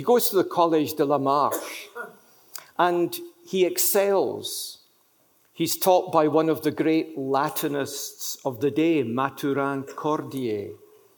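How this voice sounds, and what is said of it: French spoken with Scottish accent. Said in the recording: “Excuse my French accent... it's French with a Scottish accent.”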